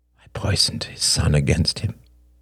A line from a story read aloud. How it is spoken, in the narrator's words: he murmured